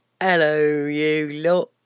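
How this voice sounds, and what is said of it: Exaggerated English accent impression. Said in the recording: “That's how you sound, you lot. That's what people sound like when they do an impression of English people.”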